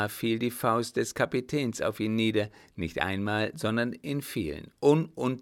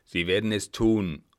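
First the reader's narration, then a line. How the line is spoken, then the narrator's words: Threatening interruption. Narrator (German): unterbrach sie mit drohender Stimme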